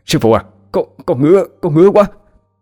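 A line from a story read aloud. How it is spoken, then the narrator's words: Stammering in distress. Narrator (Vietnamese): cờ bay đứng bên kia vặn vẹo, mặt mày tái nhợt, lắp bắp mà nói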